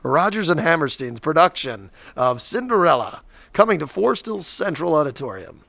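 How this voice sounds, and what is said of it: Formal announcer voice. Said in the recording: “that was a good announcer voice.”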